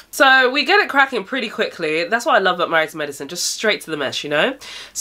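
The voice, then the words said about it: Stuffy, congested nasal voice. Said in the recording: “I'm not feeling very well, so if at any point my nose sounds a little bit stuffy”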